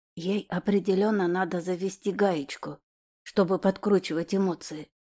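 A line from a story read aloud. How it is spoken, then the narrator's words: Whisper. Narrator (Russian): шепнул мне Ариша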